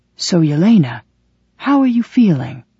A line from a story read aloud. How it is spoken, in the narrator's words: Rand leaned in closer to me and asked in a quiet voice